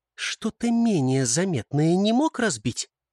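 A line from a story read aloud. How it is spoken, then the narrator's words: Through gritted teeth. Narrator (Russian): процедила Яна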